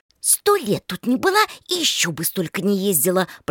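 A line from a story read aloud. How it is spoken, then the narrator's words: Hissing in ear. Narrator (Russian): продолжала шипеть ей на ухо младшенькая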